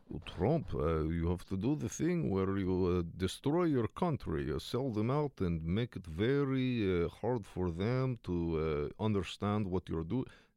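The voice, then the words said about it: Exaggerated Russian, Dracula-like accent. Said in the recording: “my Russian is sounding so Count Chocula these days ... Maybe I'm just doing a bad Dracula impression.”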